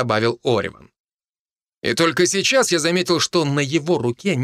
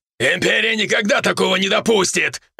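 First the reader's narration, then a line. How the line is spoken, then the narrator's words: Barking. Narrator (Russian): рявкнул Фердинанд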